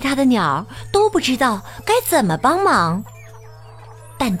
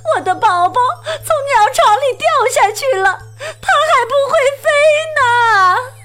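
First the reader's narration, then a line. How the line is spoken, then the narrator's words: Crying out. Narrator (Chinese): 他哭喊着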